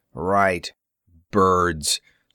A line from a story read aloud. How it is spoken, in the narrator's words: Saltrix scoffed